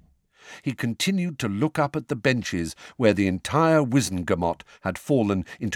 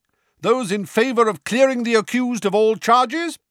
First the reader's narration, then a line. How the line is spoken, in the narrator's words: said Madame Bones's booming voice